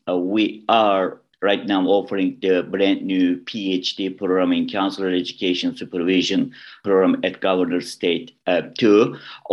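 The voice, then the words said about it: Turkish accent in English. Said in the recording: “my accent is not coming from Chicago area, Chicagoland area. I was born in Istanbul, Turkey.”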